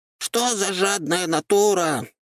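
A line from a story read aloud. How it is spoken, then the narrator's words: Offended squeak. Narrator (Russian): обиженно пропищал Люцифер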